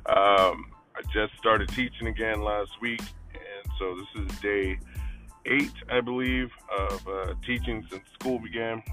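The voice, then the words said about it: Strained voice, sounds different than usual. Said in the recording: “If my voice sounds different than usual, it's because I'm battling some voice things.”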